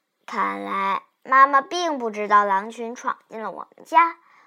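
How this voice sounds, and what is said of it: Usual voice. Nothing is said of it.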